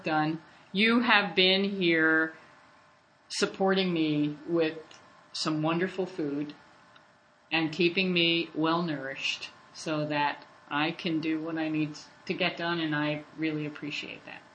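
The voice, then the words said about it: Choked-up, near-tearful voice. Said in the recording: “Are you going to cry? ... I'm getting choked up.”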